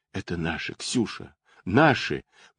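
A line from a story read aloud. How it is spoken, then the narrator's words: Trembling whisper. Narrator (Russian): дрожа всем телом, шептала Анна Петровна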